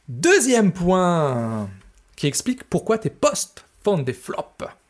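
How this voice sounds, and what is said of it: Speaks in a put-on accent. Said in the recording (French): “Je ne sais pas pourquoi j'ai pris un accent, mais j'avais envie.”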